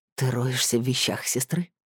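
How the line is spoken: Hoarse tired voice from behind. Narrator (Russian): За спиной послышался хриплый уставший голос

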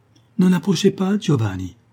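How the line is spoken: Terrified cry. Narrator (French): s'écria-t-elle avec terreur

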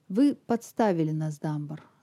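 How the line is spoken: Dry. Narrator (Russian): сказал он сухо

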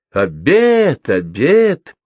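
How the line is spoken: Joyful calling. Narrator (Russian): радостно скликал

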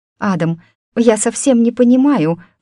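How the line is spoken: Pleading. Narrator (Russian): взмолилась Амалия

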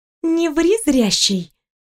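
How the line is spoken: Girl's sigh. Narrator (Russian): вздохнула девушка

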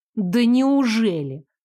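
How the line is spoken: Incredulous exclamation. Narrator (Russian): недоверчиво воскликнула я

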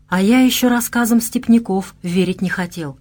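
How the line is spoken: Sighing. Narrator (Russian): вздохнул Владивой

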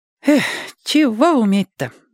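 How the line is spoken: Sighing. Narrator (Russian): вздохнул Владик

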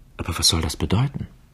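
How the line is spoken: Whispered question. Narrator (German): Und Milly fragte flüsternd

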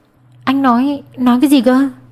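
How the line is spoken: Shocked stammer. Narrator (Vietnamese): Cô chấn kinh lắp bắp

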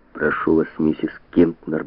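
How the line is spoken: Muttering. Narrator (Russian): бормотал Броди

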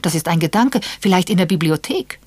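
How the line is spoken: Excited interruption. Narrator (German): unterbrach Edward aufgeregt

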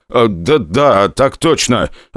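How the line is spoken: Heavy stutter. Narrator (Russian): ответил один из техников, сильно заикаясь

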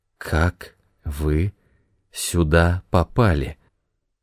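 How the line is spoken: Stunned mumble. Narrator (Russian): Ошеломленная Моника пробормотала

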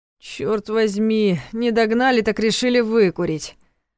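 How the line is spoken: Grumbling with strain. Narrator (Russian): проворчал Ваня, пытаясь подняться на ноги

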